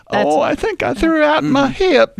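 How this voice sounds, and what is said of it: Old lady voice, a bit Southern. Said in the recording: “When ... does an old lady accent, she goes into a Southern accent ... It's a little bit Southern old lady”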